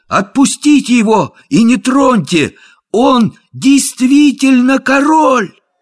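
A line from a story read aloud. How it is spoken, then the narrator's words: Ringing shout. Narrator (Russian): Том Кенти звонким голосом крикнул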